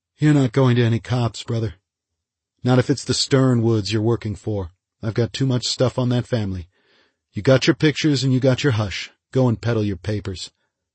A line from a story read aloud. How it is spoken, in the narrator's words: Brody said tightly